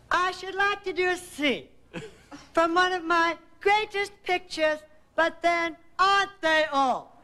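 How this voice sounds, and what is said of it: Impression of Bette Davis. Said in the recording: “would you do a little of your impersonation of Betty Davis? ... channeling Betty Davis or something in her delivery”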